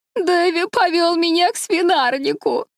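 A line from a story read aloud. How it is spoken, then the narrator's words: Sobbing. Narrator (Russian): рыдала Дора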